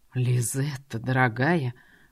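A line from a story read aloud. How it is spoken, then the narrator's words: Seductive purr. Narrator (Russian): промурлыкал этот соблазнитель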